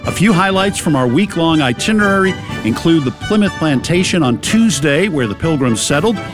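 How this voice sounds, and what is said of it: Boston accent. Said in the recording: “That's right, it's a Boston accent.”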